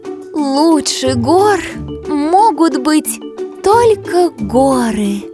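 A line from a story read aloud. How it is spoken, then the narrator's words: Sighed. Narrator (Russian): вздохнула Помада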